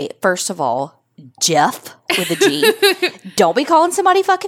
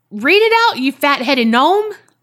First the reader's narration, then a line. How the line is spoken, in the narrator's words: yelled out